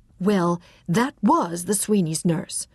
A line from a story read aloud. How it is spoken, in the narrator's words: Irene said hotly